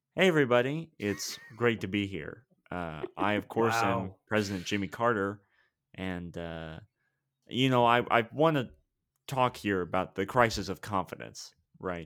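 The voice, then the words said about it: Imitates another person's voice. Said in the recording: “I always put on a special voice ... my impression ... That guy sounds like a college improv championship winner.”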